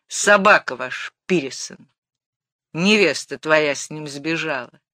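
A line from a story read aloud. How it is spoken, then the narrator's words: Rude switch in tone. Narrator (Russian): Зина грубо перешла на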